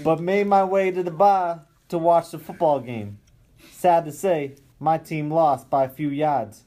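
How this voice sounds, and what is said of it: Boston accent. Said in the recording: “That was a Boston accent... That was Boston... If I've ever heard a Boston accent”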